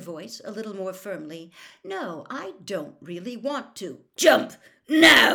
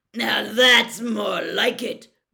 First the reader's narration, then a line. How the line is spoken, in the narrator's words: growled Moody's voice